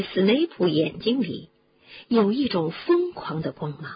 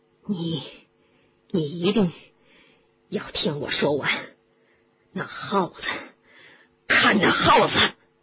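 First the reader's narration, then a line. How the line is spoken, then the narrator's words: Hoarse voice. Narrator (Chinese): 布莱克嘶哑着嗓子说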